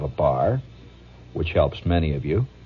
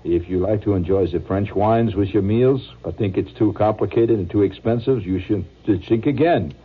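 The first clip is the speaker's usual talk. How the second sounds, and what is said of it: Put-on French accent. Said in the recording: “reading a French accent”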